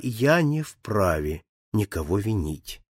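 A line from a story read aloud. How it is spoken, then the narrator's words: Very calm tone. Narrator (Russian): отвечал Филиас Фок самым спокойным тоном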